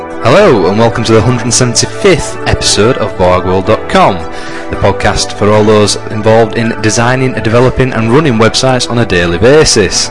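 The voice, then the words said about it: Northern English accent. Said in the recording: “you can tell by our northern accents”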